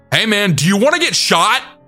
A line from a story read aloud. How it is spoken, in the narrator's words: I then shouted